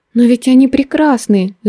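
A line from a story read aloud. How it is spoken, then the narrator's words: Fervent exclamation. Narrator (Russian): с жаром воскликнула я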